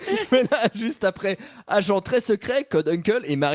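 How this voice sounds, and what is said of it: Usual voice. Nothing is said of it.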